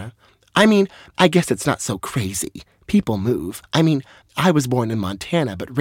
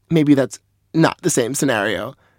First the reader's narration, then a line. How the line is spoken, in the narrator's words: chuckled Lorna